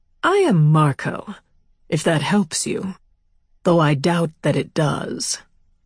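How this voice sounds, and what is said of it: Cultured upper-crust American man. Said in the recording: “His voice was cultured, American, but upper crusty.”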